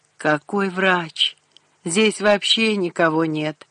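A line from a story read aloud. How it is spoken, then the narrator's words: Groan. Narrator (Russian): простонал Рашид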